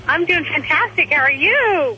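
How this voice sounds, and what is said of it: Excited, energetic voice. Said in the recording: “you sound excited”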